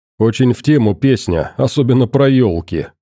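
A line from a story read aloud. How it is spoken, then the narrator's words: Wry snort. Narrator (Russian): хмыкнул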